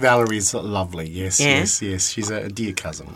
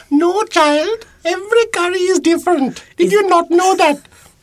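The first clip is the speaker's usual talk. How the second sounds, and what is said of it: Put-on accent. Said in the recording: “the accent. You suddenly you've lost your accent ... He loves the accent ... That's more like it.”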